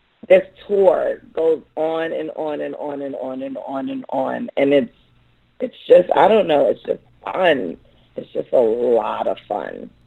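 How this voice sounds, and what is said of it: Hoarse voice. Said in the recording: “my voice is hoarse right now because this tour literally never stops”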